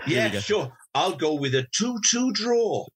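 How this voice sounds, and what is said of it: Attempted Welsh accent. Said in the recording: “He's trying to do a Welsh accent, isn't he? I can tell he's just thinking it up. ... he's warmed up now.”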